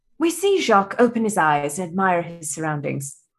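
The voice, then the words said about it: Put-on British nature-documentary narrator accent. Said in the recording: “my best British accent ... a la David Attenborough ... documentary narration”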